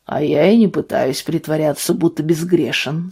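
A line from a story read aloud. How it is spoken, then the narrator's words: Calm. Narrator (Russian): спокойно произнес Вальтер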